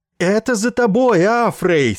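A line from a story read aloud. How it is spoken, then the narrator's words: Sympathetic loud yell. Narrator (Russian): сочувственно заорал, чтобы быть услышанным Иссариан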